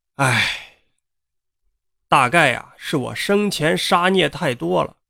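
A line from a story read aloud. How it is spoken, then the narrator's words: Man sighing. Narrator (Chinese): 另一个男人呢，叹了口气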